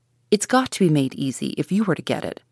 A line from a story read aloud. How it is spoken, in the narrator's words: snapped Mr